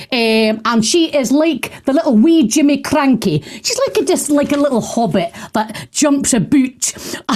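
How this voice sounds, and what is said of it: Put-on Scottish accent. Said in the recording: “do apologise for the Scots accent.”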